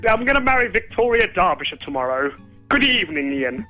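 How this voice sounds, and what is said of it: Put-on posh English accent. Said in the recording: “this is my posh accent.”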